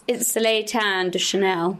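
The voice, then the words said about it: Put-on French accent. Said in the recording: “Do you like my French accent? ... That is so French.”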